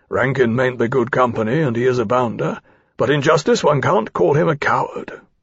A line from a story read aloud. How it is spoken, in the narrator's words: he added in an undertone